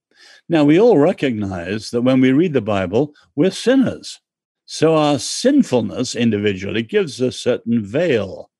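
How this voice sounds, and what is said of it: English accent. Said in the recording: “I'm English. ... I like your accent.”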